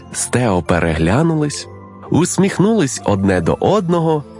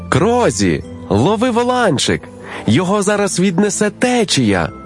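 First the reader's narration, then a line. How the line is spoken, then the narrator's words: Anxious shout. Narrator (Ukrainian): переживаючи крикнув Сід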